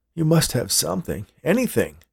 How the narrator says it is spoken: Hank pleaded

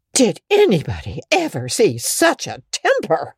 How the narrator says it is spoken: exclaimed the horrified Mrs

